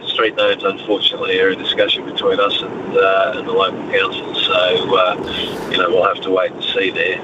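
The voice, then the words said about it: Australian accent. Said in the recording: “you sound Australian”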